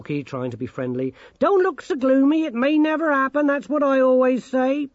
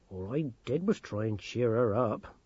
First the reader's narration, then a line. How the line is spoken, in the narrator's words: mumbled Granny Morky